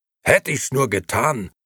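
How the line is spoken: Roar. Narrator (German): brüllte Nicola

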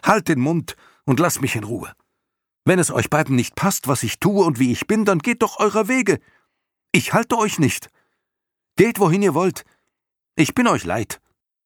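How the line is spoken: Shouting. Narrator (German): Bastian schrie ihn an

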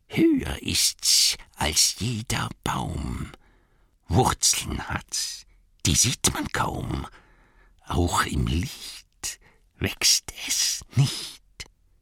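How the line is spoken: Hissing. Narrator (German): zischelte Gollum

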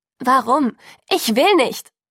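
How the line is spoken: Straining, resisting shout. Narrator (German): rief ich und stemmte mich mit aller Kraft

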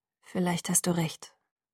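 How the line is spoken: Gloomy murmur. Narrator (German): murmelte trübsinnig

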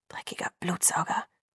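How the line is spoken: Low vehement mutter. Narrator (German): stieß er leise hervor

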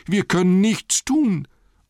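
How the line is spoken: Group lamenting. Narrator (German): jammerten die anderen

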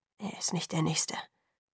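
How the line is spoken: Quietly to himself. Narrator (German): sagte Jacob leise zu sich selbst

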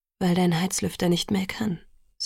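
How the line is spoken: Calm. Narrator (German): sagte Edward ruhig

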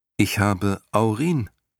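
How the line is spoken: Plain. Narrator (German): sagte Bastian

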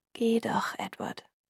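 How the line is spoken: Quiet. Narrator (German): sagte leise

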